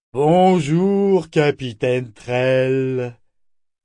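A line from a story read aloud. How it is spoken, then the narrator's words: Booming voice. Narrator (French): dit-il d'une voix tonitruante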